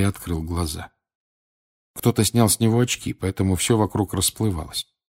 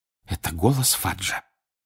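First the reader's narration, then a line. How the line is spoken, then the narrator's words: Whisper. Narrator (Russian): прошептала миссис Уизли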